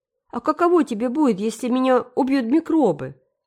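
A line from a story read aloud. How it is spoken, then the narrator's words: Indignant demand. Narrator (Russian): возмущенно потребовал ответа Дэви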